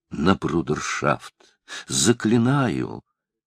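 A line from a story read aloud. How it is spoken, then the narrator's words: Changed, quiet, pleading voice. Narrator (Russian): Изменившимся голосом, тихо, с лицом искаженным мольбой, обратился мсье Пьер к Цинценату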